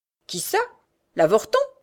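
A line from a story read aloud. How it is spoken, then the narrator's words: Old woman's exclamation. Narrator (French): s'exclama la vieille femme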